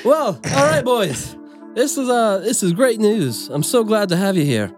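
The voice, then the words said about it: Character voice with a dude accent. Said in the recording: “do an accent for Ida. So now she has one ... That's a fucking dude voice.”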